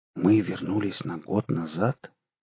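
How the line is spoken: Quiet question. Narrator (Russian): тихо спросил Костя

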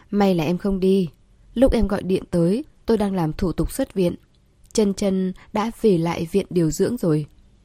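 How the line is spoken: Smiling. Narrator (Vietnamese): Vệ Cẩm Huyên mỉm cười

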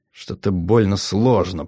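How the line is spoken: Mutter. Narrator (Russian): пробормотал Кар

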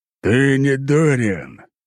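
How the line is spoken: Growled reply. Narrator (Russian): прорычал он в ответ

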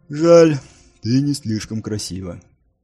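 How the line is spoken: Loud sigh, then speaking. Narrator (Russian): Нил шумно вздохнул и сказал

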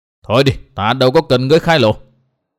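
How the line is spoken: Stern. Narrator (Vietnamese): Tốc Đào nghiêm giọng

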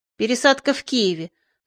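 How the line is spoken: Dry warning. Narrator (Russian): сухо предупредил контролер

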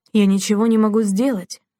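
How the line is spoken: Crushed complaining voice. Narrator (Russian): убитым голосом жаловался

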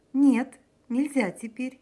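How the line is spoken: Answer then laughter. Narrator (Russian): ответила Мария Николаевна и засмеялась

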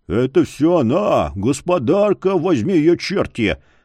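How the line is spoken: Deep bass voice. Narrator (Russian): пробасил кто-то

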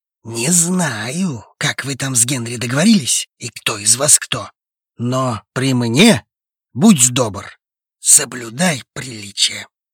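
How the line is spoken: Young man nearly hissing. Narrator (Russian): Почти прошипел парень

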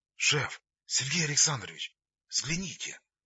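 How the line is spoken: Quiet, almost tender call. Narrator (Russian): так тихо, почти ласково позвал Вася

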